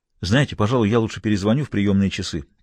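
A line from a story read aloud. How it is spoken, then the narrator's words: Hurried. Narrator (Russian): торопливо сказал он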